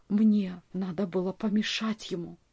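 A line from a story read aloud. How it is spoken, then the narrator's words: Whisper. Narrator (Russian): прошептал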